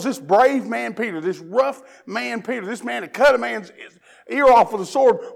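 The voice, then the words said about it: Mild Southern US accent. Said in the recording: “You're not from here. You're from Tennessee, aren't you?" Now, here, my accent gives me away. Not as bad now as it used to be, but it gives. If you're from the South”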